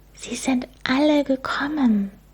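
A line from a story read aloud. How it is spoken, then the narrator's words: Amazed whisper. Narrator (German): Sie flüsterte staunend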